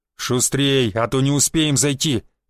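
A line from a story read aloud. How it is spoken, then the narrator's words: Growl. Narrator (Russian): зарычал на остальных Буян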